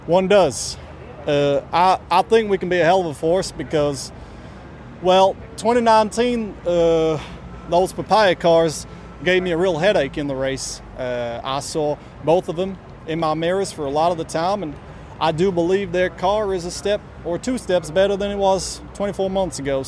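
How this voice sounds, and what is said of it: Put-on Texas accent. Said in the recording (Dutch): “interviews gegeven met een Texas accent”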